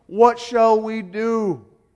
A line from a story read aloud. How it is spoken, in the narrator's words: being sorry for that sin, they cried out to Peter and the apostles